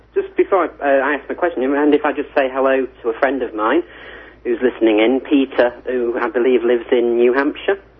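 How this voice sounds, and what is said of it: British accent, drawn-out vowels. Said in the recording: “You extended that E out about four times longer than any American would”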